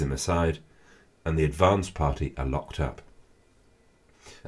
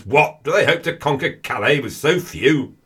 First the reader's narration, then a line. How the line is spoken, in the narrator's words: looks a bit confused and bellows